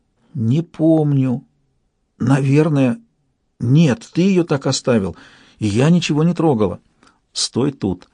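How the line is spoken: Frightened barely audible whisper. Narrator (Russian): Она с явным испугом призналась едва слышным шепотом

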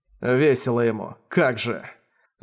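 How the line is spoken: Irritated grumble. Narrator (Russian): раздраженно пробурчал Манхао

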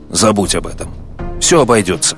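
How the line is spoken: Sharp irritated reply. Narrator (Russian): мистер Джордан резко и раздраженно ответил

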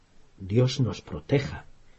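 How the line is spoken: Trembling voice. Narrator (Spanish): dijo Harry con voz temblorosa

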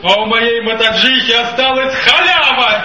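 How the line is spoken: Loud bark filling carriage. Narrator (Russian): кто-то на весь вагон как гаркнет

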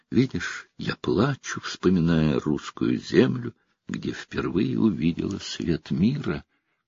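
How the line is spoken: Tearful whisper. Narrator (Russian): Вытирая платком слезы, королева шептала

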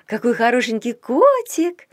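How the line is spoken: Cooing. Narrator (Russian): проворковала она

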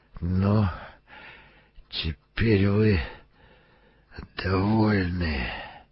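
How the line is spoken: Hiss. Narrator (Russian): прошипел Беллингем

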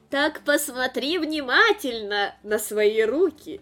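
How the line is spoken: Laughing. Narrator (Russian): рассмеялась тетушка Вердеагуа

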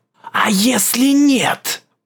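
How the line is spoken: Whisper. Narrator (Russian): прошептал чей-то голос

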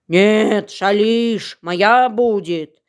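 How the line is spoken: Growling wolf. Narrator (Russian): Зарычал волк

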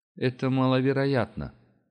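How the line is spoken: Menacing snort. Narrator (Russian): хмыкнул генерал угрожающе

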